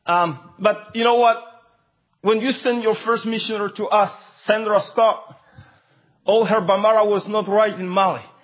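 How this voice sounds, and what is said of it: Non-native English accent. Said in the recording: “English is my fourth language. I'm sorry for my broken grammar and my accent.”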